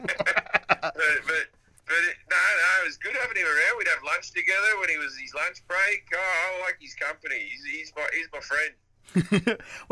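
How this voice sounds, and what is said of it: Australian accent. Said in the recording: “if they couldn't figure out by your accent, you grew up in Australia”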